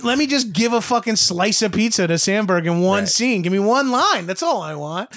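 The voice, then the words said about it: Brooklyn accent. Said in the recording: “Brooklyn Nine-Nine takes place in Brooklyn. I'm like, my accent is perfect for it.”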